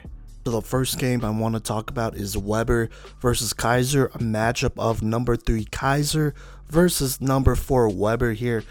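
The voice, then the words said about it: Hoarse, strained voice. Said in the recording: “I think I'm losing my voice... It's not a vocal fry thing. I'm not doing this on purpose or whatever. It's just how it sounds.”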